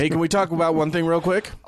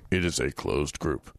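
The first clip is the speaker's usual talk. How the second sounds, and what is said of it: Exaggerated deep voice. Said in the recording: “do that in deep voice”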